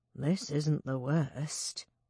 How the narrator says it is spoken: he said quietly

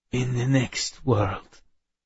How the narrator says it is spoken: he croaked

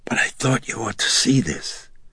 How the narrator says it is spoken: she huskily whispered

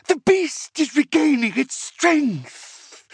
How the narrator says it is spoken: Dalgar screamed

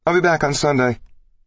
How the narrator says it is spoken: she hollered over her shoulder

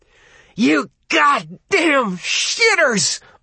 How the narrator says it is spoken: Arnie screamed

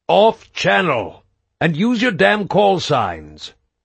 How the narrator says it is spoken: Stroud barked

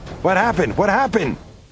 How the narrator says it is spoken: yelled Greg in my ear

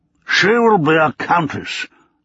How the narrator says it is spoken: Davenport boomed

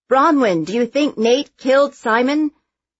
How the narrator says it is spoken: Most of the reporters shout

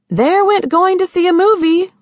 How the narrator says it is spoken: she cried

